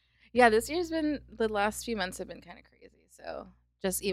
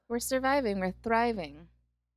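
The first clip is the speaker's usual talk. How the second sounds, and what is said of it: Imitates a TV character's affected accent. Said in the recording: “why do you have a Moira accent right there?”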